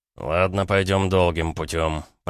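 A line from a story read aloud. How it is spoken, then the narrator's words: Mutter. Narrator (Russian): пробормотал Гаранин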